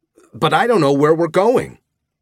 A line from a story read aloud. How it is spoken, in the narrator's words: I yelled back